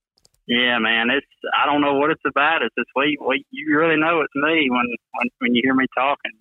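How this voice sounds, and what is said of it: Southern Alabama accent. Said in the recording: “you Bama boys, I mean, you stick out like a sore thumb with your accent ... He's a Southern boy. He's from Alabama for sure.”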